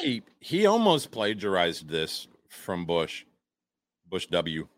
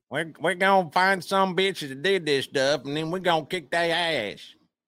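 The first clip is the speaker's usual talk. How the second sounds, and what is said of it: Imitates another person's voice. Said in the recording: “That's my W impression.”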